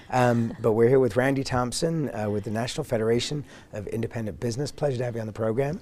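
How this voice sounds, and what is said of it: Croaky voice. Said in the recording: “Forgive my voice. A little croaky today because I got a cold.”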